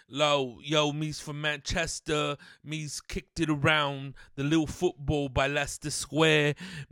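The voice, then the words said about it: Put-on British accent. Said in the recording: “the little accent that I got from like Great Britain”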